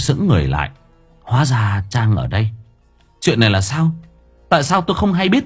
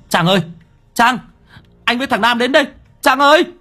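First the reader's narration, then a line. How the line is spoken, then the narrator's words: Loud shout while running. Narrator (Vietnamese): Thành Mo chạy đến hét to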